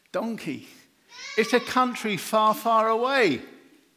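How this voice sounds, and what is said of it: Put-on Scottish accent. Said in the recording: “Sorry about the Scottish accent. Sorry about that.”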